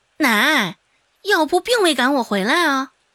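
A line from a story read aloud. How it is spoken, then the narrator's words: Flat, indifferent tone. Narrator (Chinese): 周芷淡淡的说道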